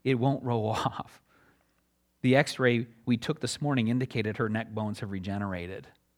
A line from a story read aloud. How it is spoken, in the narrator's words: muttered in low tones